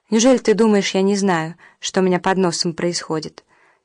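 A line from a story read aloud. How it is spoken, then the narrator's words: Sad. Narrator (Russian): печально сказала Фаина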